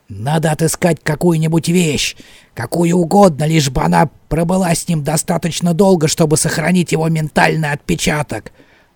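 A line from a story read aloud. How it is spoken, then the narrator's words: Grumbling. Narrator (Russian): Он продолжал ворчать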